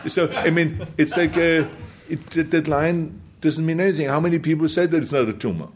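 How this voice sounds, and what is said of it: Foreign accent, T sounds like D. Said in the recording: “a lot of it has to do with my accent also... instead of a T, I said it more with a D. It's not a Duma”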